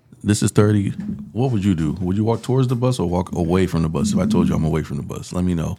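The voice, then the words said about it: Slight Haitian accent. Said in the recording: “You know I'm Haitian. I have a little accent.”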